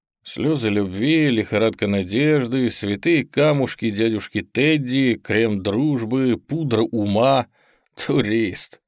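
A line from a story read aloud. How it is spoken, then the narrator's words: Snort. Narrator (Russian): хмыкнул молодой негр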